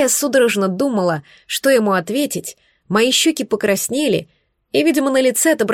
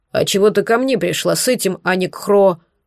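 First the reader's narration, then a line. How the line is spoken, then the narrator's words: Snorted, then asked. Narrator (Russian): он хмыкнул и спросил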